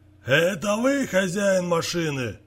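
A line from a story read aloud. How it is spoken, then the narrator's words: Old man shouting back. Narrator (Russian): крикнул в ответ ему дед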